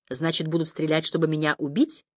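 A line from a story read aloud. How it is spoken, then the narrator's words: Thoughtful. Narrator (Russian): повторил я задумчиво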